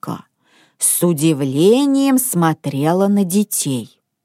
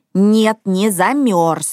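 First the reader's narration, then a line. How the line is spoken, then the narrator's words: Angry reply. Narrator (Russian): сердито ответил Мортен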